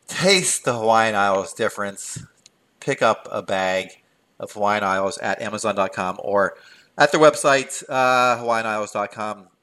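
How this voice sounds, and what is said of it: Put-on radio announcer voice. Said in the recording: “I'm trying to do a radio voice. That's terrible, isn't it?”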